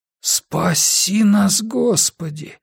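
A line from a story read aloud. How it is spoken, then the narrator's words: Breathless exhale. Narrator (Russian): выдохнул Гарри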